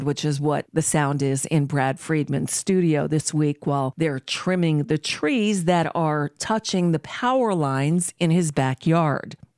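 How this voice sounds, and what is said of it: Sick, strained voice from a cold. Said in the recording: “I apologize for my voice. I am battling a flu, cold thing”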